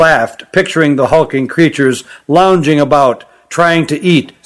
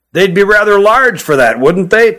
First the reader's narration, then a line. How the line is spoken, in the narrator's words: chuckled Hutt